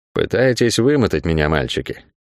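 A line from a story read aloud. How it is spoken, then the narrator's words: Muttering. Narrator (Russian): пробормотала она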